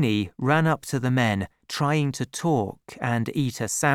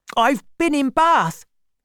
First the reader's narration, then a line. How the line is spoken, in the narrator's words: said excitedly